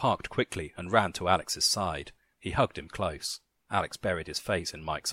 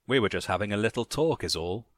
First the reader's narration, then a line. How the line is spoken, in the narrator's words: Randall laughed again